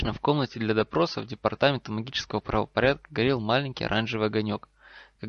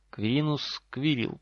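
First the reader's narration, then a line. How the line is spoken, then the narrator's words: Drawled. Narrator (Russian): протянул человек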